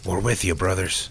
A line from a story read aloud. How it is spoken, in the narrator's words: Ronnie whispered